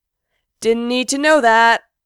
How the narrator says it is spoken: Gerard calls over his shoulder as Frank and Mikey laugh

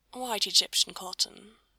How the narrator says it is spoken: Aziraphale sighed

